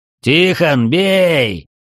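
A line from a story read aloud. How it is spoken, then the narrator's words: Roaring. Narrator (Russian): Комтур, взревев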